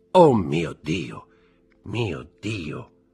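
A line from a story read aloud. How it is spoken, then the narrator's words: Murmur. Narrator (Italian): mormorò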